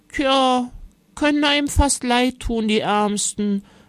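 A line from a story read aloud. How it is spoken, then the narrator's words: Sighing old woman. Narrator (German): seufzte Oma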